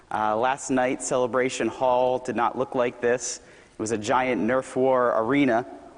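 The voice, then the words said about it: Slightly hoarse voice. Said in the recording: “my voice gets hoarse ... I was yelling quite a lot ... my voice is a little hoarse”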